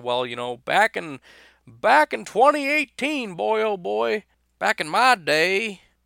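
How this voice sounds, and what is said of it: Put-on southern old man voice. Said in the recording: “I don't know why I would have a southern accent ... I don't know why I sound like an old man”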